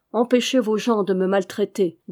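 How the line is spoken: Firmer voice. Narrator (French): dit-il à Yomi d'une voix plus ferme

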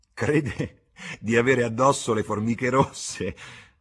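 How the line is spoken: Laughing speech. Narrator (Italian): disse ridendo una delle due

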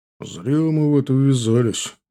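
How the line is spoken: Grumbling. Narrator (Russian): буркнул Женя

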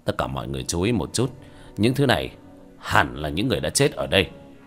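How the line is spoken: Quiet voice. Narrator (Vietnamese): Hứa Trình Dương nhỏ giọng

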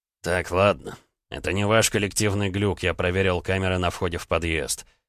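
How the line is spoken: Perfectly calm. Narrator (Russian): совершенно спокойно произнес Гаранин

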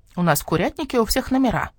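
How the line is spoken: Young bird, chicken-like voice. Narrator (Russian): сообщил скворчонок куриным голосом

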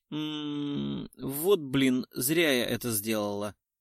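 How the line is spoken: Quiet displeased grumble. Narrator (Russian): Раздалось тихое недовольное ворчание

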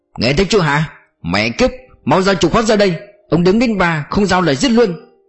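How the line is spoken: Impatient roar. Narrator (Vietnamese): Lưu Trực lập tức mất kiên nhẫn, gầm lên

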